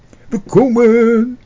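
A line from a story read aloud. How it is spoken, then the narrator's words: Calling out. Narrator (Dutch): riep meneer Plomp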